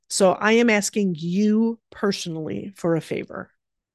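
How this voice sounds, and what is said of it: Choked-up, emotional voice. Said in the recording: “getting choked up again ... I'm getting choked up”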